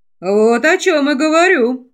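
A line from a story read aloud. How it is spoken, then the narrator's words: Snorting. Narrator (Russian): хмыкнул Койл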